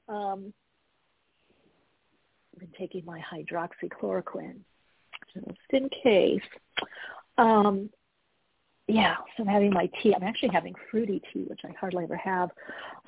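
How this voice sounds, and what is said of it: Sick, under-the-weather voice. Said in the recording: “a little under the weather, if you hear it in my voice”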